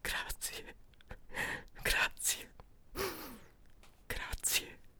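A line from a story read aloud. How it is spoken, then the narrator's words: Man whispering. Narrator (Italian): la voce dell'uomo che sussurra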